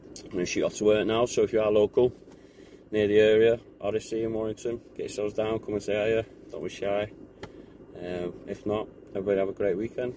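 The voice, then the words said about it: Northern English accent. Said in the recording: “I am English. ... It's just a northern accent.”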